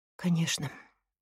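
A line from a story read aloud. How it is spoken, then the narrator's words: Sighing. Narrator (Russian): вздохнул он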